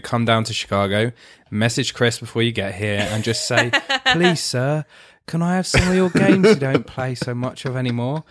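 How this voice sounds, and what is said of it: Dick Van Dyke Mary Poppins Cockney. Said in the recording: “a great British accent ... my Dick Van Dyke from Mary Poppins”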